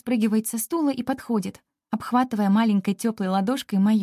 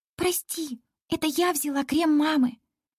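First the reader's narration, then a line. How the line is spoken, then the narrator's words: Soft whisper. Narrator (Russian): Тихо шепчет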